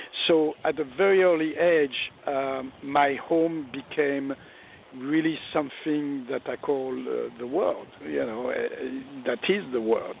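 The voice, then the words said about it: Thick French accent. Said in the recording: “I've got this thick French accent”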